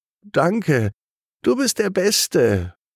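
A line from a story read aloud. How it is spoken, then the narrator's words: Enthusiastic call. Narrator (German): ruft sie begeistert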